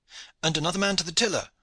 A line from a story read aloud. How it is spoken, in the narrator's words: cried the master shipman